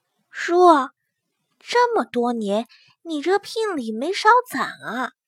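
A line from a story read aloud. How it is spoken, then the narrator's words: Lowered voice, nervous. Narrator (Chinese): 祸水咽了咽口水，压低了声音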